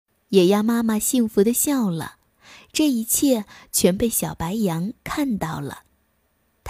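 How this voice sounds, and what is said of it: Usual voice. Nothing is said of it.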